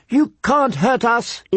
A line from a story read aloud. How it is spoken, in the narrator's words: he screamed